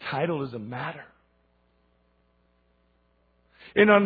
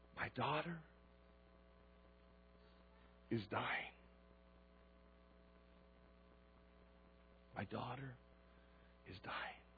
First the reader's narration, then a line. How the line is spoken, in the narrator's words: he fell at his feet and pleaded